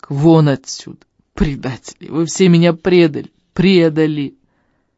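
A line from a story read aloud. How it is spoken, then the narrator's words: Sob. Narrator (Russian): Он всхлипнул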